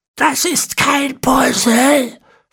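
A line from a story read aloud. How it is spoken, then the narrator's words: Hiss. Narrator (German): fauchte Ezekiel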